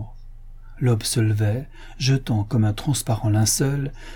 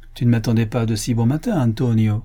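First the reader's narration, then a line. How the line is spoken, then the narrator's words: Sneering reply. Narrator (French): répondit le bandit en ricanant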